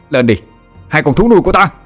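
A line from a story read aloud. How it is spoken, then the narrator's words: Loud shout. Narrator (Vietnamese): Thằng Vinh hét to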